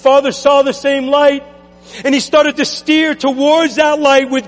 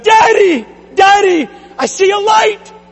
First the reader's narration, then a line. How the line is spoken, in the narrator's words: the little girl cried out